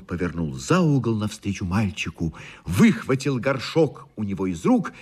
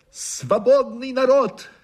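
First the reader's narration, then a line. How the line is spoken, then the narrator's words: Shouted. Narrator (Russian): крикнул он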